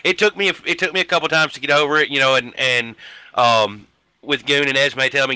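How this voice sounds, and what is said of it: Rural Kentucky-like Southern American accent. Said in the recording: “they were talking about being from Kentucky. Don't worry about your accent. You hear what's coming out of this mouth right here... redneck it up with me”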